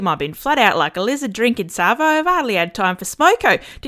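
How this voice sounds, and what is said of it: Australian accent. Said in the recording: “you're probably pretty familiar with Australian slang. But where did our accent come from?”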